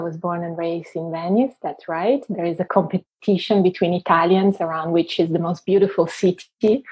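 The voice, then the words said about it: Italian-accented English. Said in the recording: “you have a beautiful accent because you spent a lot of your life living in Italy, in Venice ... I have a beautiful accent because I am Italian”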